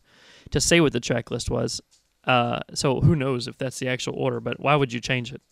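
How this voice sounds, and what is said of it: Hoarse, fading voice. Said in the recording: “pardon me, I'm losing my voice.”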